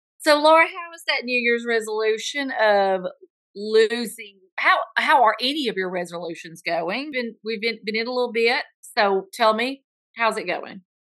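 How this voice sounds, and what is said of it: Southern American accent. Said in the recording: “they happen to have Southern accents too. Bless their hearts.”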